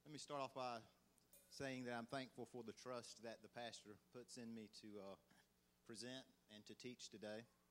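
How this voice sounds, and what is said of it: Southern US country accent. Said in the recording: “you sound country. You have a country accent. ... They always guess Alabama, and I'm like, "Nah, Georgia."”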